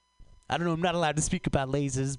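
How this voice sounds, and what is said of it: Woody Allen voice impression. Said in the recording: “Donald Trump says ... oh, that was Woody Allen ... know why I did Woody Allen ... You ever not practice an accent and then you do Woody Allen accidentally?”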